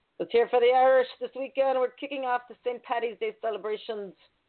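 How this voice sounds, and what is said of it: Put-on Irish brogue. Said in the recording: “You love my brogue?”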